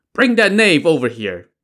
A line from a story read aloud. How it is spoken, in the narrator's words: the prefect shouted